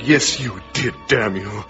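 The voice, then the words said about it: Evil, handsome villain character voice. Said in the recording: “what I imagined as evil, yet handsome Mr. Benevolent said ... A good impression, by the way. Spot on.”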